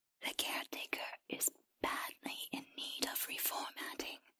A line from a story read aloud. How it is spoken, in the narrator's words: the creature whispered